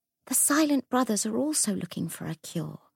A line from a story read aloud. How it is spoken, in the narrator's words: she whispered